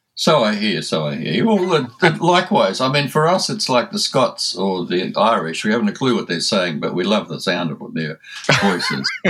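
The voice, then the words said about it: Australian accent. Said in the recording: “my Aussie accent ... the accent is music to the American ear”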